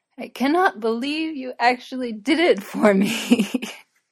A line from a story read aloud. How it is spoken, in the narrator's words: Frodo broke into tipsy giggling